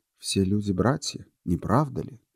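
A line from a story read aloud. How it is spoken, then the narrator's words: Calm pronouncement. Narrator (Russian): изрек странник свою любимую фразу тем же спокойным голосом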